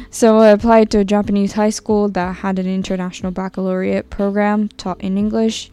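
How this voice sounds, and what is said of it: Mixed international English accent. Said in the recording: “my weird accent is from spending 4 years in an international school, then learning from teachers mostly from Australia and the UK, to living in London for 2 years”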